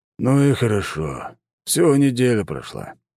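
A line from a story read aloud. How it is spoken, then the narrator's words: Relieved sigh. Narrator (Russian): облегченно вздохнул крепкий мужчина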